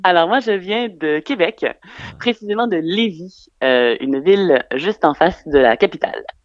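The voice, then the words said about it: Quebec French accent. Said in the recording (French): “une femme avec un drôle d'accent ... on n'a pas entendu ton accent là, t'as pas été assez ... Ah, ça y est, ça va mieux”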